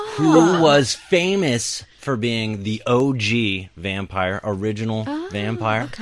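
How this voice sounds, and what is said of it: Usual voice. Nothing is said of it.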